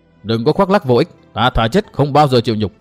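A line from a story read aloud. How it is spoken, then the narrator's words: Suppressed anger. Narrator (Vietnamese): Trưởng môn Vô Cực dần cơn tức giận nói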